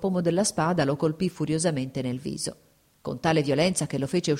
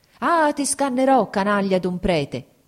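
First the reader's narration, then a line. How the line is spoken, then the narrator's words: Continuous angry shouting. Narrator (Italian): gridava di continuo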